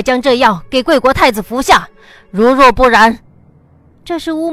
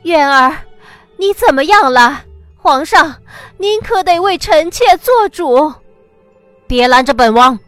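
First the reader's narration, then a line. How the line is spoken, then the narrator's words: Grief-stricken voice. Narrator (Chinese): 皇后的声音满含悲痛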